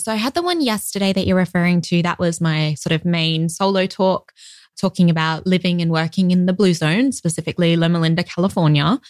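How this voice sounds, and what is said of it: Australian accent. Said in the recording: “the listeners can probably hear you have an Australian accent.”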